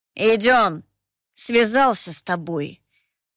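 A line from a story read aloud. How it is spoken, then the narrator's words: Mixed grumbling. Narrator (Russian): Не разобрать, чего в его ворчании было больше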